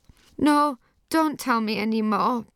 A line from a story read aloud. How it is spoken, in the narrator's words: begged Johnny